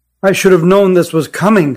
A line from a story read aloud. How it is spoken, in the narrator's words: said Deliani